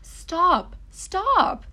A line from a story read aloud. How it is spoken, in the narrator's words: cried Alex as the water rose around his ankles